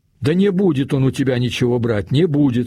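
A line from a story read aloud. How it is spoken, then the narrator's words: Boss shouting. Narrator (Russian): уже кричал начальник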